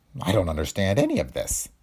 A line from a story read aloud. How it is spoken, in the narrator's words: the burly gardener muttered